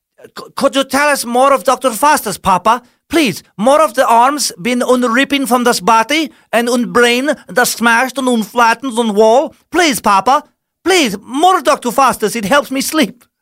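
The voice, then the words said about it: Put-on German-ish accent. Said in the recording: “that was a German-ish accent.”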